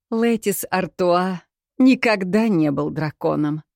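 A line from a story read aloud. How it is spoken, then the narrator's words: Laughing. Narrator (Russian): рассмеялся Барт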